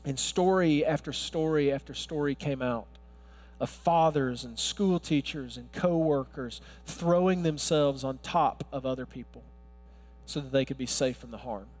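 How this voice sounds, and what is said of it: Southern US Alabama accent. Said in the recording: “where's that accent from? I can't, it's not Brooklyn, it's Alabama.”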